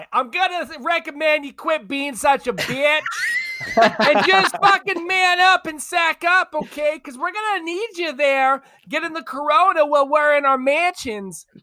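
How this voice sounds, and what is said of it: Strong put-on East Coast accent. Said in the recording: “strong, ... a strong ... East Coast accent”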